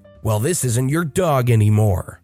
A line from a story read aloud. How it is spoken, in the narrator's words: that ticked my entitled mother off, and she said